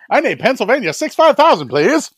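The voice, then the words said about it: Weird affected old-timey accent. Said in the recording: “We all talked like that back then. We all, you know, had that really weird afflicted old-timey accent.”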